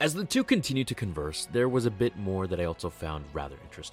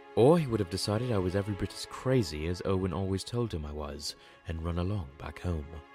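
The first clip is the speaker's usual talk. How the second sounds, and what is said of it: Poor put-on English accent. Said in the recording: “I know that English accent is terrible, but hey, I tried.”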